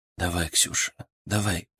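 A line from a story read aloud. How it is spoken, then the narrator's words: Whisper. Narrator (Russian): прошептал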